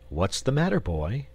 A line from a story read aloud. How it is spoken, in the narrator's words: he inquired kindly